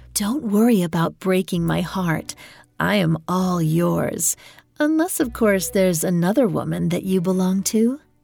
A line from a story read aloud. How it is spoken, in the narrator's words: She cooed in his ear